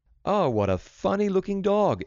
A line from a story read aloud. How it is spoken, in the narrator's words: exclaimed Walter